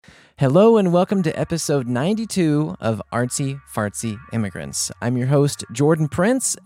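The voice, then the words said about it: Deep voice, slightly sick-sounding. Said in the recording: “my voice is nice and deep today. And that's because I'm probably catching a little cold.”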